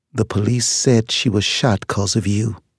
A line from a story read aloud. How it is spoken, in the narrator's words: Ethel Fox said in a flat, grieving tone